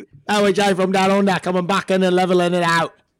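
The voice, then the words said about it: Put-on Australian-sounding accent. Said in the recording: “Was that Australian? ... It sounded kind of Australian.”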